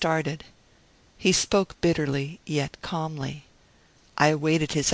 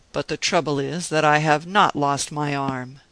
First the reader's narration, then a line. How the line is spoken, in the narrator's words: replied bitterly